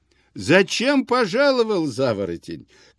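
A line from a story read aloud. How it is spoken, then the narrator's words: Shouting through laughter. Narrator (Russian): кричал сквозь смех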